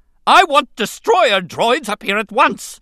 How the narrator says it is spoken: Newt Gunray screamed

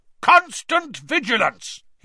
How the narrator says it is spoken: He roared

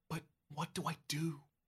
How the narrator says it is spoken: You whisper

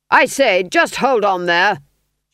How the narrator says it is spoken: shouted Berentz

